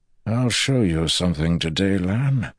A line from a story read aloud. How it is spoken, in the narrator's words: Agilmar said softly